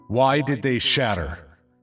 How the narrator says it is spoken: ask in a loud, commanding voice

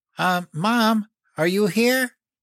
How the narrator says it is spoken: called out

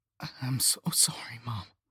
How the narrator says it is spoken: I just heard myself croak

